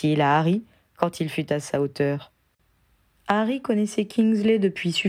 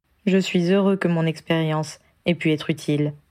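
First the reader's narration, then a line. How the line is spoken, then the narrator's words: Plain. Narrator (French): répondit-il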